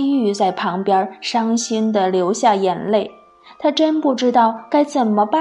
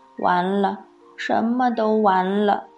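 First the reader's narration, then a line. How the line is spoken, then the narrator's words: Mumbling. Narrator (Chinese): 喃喃地说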